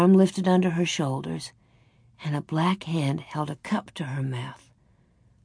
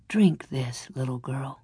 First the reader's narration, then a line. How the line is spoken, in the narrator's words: a deep voice said softly